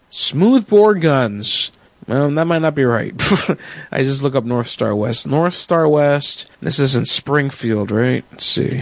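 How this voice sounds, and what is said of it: Hoarse, fading voice. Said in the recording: “I'm starting to lose my voice again. Fucking flu.”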